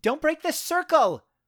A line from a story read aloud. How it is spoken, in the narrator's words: I heard Jessica Forco shout